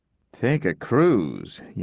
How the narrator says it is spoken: Yank mumbled

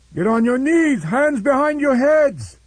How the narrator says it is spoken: the Iban pirate chief shouted at the ship's hands

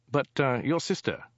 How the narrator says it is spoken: he asked nervously

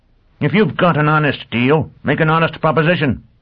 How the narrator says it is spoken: Quat said angrily

